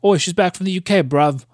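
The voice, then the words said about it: Put-on British accent. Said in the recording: “That's very offensive. I'm probably sure to some UK listeners ... anyone British ... offended accent. By accents.”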